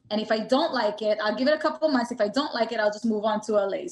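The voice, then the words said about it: New York accent. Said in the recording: “anybody listening can kind of hear the New York accent in your voice”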